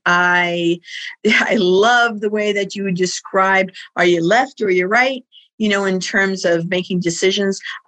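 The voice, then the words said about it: New York City accent. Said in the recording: “I did grow up in New York City. You can tell from my voice and my accent.”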